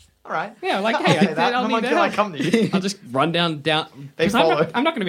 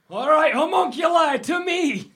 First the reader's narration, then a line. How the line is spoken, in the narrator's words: You yell that